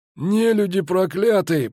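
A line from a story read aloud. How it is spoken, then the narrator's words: Hoarse wheeze. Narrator (Russian): просипел Клапрот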